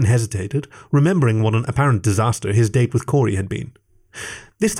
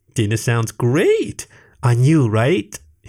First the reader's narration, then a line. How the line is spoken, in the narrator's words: he giggled, perhaps a subtle hint at a joke